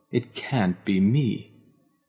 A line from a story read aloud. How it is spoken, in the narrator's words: groaned